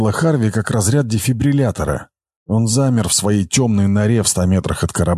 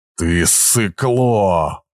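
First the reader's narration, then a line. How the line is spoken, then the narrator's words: Growl to himself. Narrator (Russian): прорычал он себе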